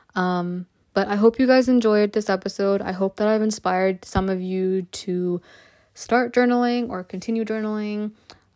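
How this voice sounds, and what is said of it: Slightly hoarse voice. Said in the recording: “My voice is starting to get hoarse”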